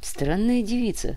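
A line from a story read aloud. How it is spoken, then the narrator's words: Sighing to himself. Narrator (Russian): вздохнул про себя Железный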